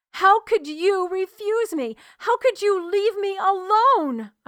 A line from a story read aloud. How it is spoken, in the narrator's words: I screamed at the iron sky